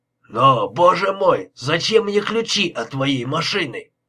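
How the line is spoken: Exclaimed. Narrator (Russian): воскликнул

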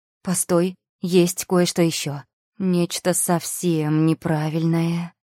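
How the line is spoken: Drawl. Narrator (Russian): протянула я

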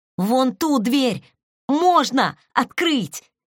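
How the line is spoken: Shout. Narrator (Russian): крикнул Тэхён

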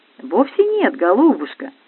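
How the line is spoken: Gentle encouragement. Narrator (Russian): ласково приободрил меня скульптор

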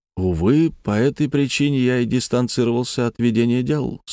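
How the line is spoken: Rueful sigh. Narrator (Russian): сокрушенно вздохнул Боярский

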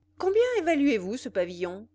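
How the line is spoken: Brusque, curt tone. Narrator (French): lui dit-il d'un ton brusque et sec

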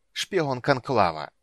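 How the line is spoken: Mocking hiss. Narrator (Russian): последнее слово ночной властелин прошипел с насмешкой

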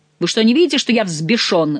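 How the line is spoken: Roared, enraged. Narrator (Russian): взревел Монсоро

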